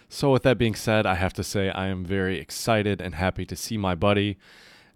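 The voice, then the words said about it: Quiet, hushed NPR-style voice. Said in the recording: “I'm talking half NPR voice ... we'll be a little bit quieter on my end today ... the more NPR style delivery”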